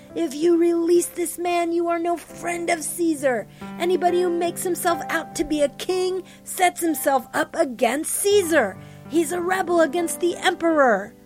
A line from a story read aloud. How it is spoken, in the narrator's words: the Jews kept shrieking